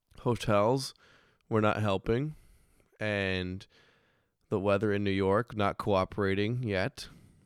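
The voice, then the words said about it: Hoarse, weakened voice. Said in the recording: “if you can't tell, my voice, it's coming back a little bit. But I lost my voice last week ... lost my voice, dude.”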